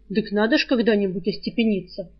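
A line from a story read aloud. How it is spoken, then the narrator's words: Snorting. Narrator (Russian): хмыкнул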